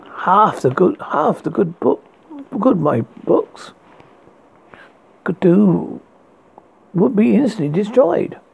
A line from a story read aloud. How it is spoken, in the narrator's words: he said sadly